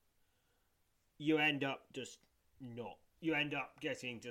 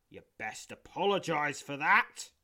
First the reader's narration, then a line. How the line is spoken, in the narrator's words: he grumbles